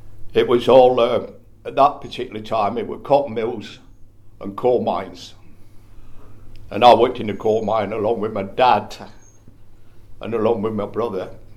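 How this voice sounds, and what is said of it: Northern English Bolton accent. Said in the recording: “I've got a funny old accent, you can probably distinguish it, you know, but I'm originated from just outside Manchester, Bolton.”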